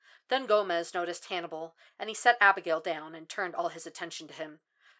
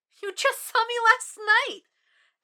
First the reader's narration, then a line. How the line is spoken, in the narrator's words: Abigail squeaked it out, letting out a little shriek